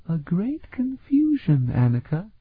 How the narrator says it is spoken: Zanisha said sadly

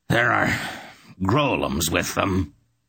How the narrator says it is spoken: he growled, still sizzling the air around him with oaths

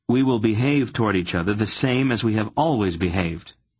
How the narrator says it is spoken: Geryon said firmly

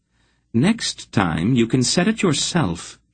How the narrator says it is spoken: she suggested coolly

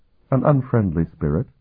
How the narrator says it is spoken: Sifrania replied calmly

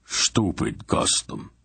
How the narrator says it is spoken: Barak growled sourly

